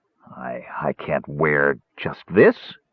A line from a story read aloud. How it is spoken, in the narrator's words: he stammered